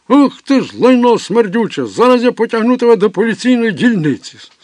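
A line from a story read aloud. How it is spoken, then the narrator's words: Shout. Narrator (Ukrainian): Зненацька хтось закричав на нього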